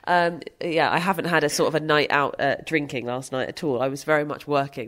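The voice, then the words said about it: Ill, tired-sounding voice. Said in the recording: “I'm ill, as you can tell by my voice. ... This is just a tired voice”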